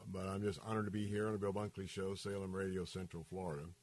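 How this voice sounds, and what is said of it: Hoarse, nearly lost voice. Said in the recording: “my voice is about gone”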